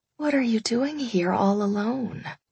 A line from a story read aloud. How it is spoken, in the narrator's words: I whispered